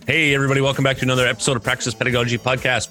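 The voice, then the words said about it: Very fast speech. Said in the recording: “Said that fast, didn't I?”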